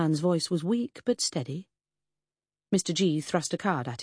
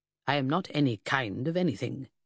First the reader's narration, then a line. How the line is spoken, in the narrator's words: said stiffly